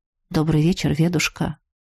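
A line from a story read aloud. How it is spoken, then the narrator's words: Quiet. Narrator (Russian): тихо проговорил он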